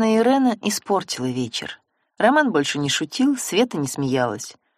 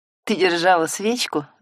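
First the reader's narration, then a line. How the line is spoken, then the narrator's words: Laughing. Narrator (Russian): засмеялся Роман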